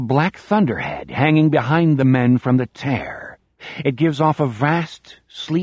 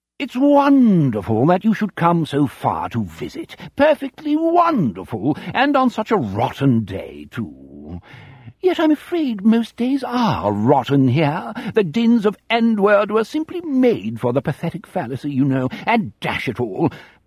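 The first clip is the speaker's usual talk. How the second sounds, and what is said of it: Exaggerated posh English aristocrat voice. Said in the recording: “in his most pleasant voice. The bogus German accent is gone. Now he sounds like a bogus English aristocrat in a West End stage comedy from the 1950s”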